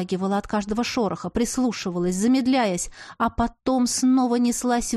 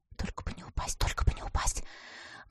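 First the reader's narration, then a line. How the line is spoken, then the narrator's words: Whispered like a mantra. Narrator (Russian): шептала, словно мантру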